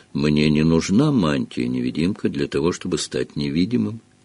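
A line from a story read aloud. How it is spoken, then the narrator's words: Soft. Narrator (Russian): мягко произнес Дамблдор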